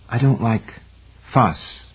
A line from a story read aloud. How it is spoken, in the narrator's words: Patricia said softly